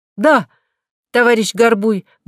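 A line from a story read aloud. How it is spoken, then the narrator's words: Loud. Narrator (Russian): громко сказала Нинеля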